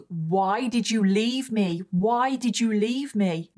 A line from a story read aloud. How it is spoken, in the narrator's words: lunged at her and started shouting